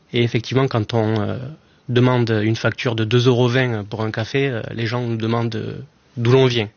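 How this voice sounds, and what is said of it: Slight southern French Aveyron accent. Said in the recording (French): “j'imagine que ça s'entend à la radio, mais j'ai un petit accent ... du sud ... de l'Aveyron”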